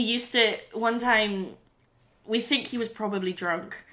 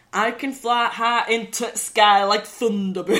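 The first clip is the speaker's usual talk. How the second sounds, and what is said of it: Poor imitation of Yorkshire accent. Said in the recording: “a really strong Yorkshire accent ... Can you do a Yorkshire accent? ... Very badly.”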